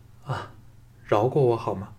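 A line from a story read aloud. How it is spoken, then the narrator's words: Weak trembling plea. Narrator (Chinese): 连站直娇躯都吃力异常，颤声说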